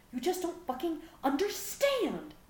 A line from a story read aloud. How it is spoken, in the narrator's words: Gohan screamed